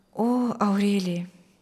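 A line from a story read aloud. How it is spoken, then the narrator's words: Quiet. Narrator (Russian): тихо отвечал Мирослав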